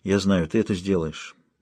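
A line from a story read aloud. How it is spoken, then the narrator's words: Quiet addition. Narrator (Russian): тихо добавил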